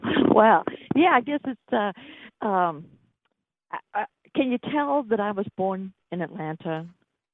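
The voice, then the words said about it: Slight Georgia Southern accent. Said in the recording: “Do I have a little bit of an accent? ... Sweet Georgia accent. ... Just a touch.”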